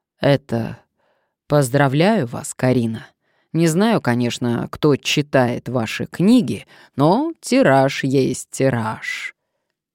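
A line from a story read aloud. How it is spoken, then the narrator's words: Throat-clearing, deep bass voice. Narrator (Russian): солидно откашлялся и проговорил густым волжским басом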